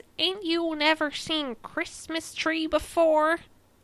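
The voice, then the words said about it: Poor put-on Texas accent. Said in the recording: “Did you like my accent? ... That's slightly worse than the last one. ... It's deteriorating. ... That's how all people from Texas sound like.”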